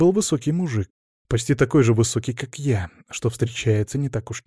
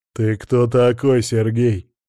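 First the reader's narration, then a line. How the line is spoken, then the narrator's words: Growling. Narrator (Russian): прорычал кретин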